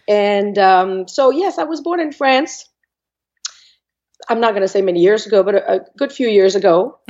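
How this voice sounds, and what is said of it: Voice affected by a cold. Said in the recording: “apologize for my voice ... I have a cold, so I may sound a little funny, and I might cough here and there”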